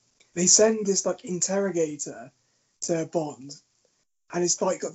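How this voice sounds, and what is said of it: Usual voice. Nothing is said of it.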